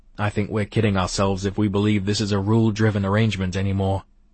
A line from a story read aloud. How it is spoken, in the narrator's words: I said